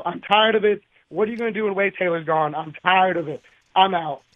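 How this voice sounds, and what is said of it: Angry, fed-up voice. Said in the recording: “You can hear it in his voice... He is so pissed. He's had enough.”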